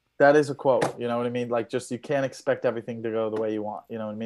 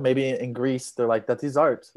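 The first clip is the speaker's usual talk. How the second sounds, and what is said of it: Put-on Greek accent. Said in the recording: “That was a beautiful Greek accent too... I just went with an accent.”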